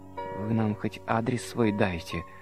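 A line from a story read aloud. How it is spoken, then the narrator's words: Timid request. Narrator (Russian): робко попросила хозяйка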